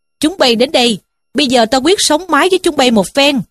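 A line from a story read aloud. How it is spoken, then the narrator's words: Defiant shout. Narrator (Vietnamese): Trí Thâm liền quát lên rằng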